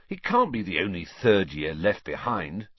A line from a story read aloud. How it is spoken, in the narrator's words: said Ron